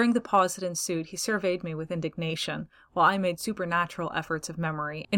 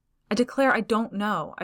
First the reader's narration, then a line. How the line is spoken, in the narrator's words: I protested earnestly